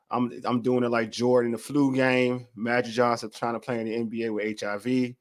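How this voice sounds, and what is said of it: Slightly hoarse voice. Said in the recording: “I sound a little hoarse, it's because I have a little cold.”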